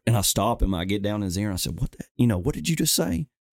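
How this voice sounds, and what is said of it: Southern US accent from Alabama. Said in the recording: “I guess he heard my accent ... I'm from Alabama”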